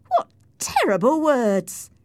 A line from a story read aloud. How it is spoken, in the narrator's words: I cried